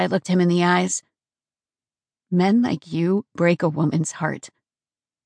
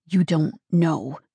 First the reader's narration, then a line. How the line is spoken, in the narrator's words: he growled